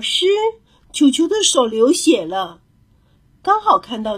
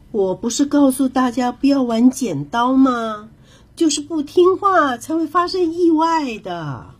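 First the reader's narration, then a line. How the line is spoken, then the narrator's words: Sighing. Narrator (Chinese): 蝴蝶老师摇摇头，叹着气说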